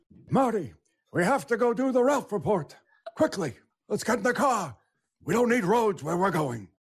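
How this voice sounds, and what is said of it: Doc Brown movie character impression. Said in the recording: “his Doc Brown impression”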